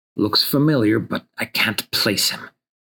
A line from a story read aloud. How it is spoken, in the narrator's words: whispers Corey